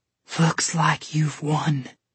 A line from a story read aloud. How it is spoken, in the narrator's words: Esmia wheezed with difficulty